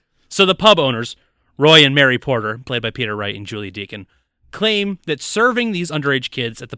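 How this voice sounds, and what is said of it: Usual voice. Nothing is said of it.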